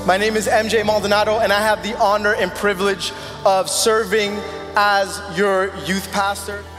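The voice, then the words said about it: Speaks with a noticeable accent. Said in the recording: “As you can probably tell from my accent”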